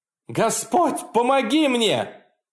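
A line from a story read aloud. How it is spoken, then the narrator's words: Desperate full-force scream. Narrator (Russian): прокричал я изо всех сил, когда что-то ухватило меня за ногу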